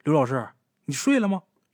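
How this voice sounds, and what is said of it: Crisp, clear bright voice. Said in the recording (Chinese): “一个脆生生的声音说”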